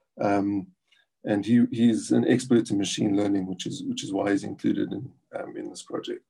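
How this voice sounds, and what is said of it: South African accent. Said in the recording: “has a South African accent”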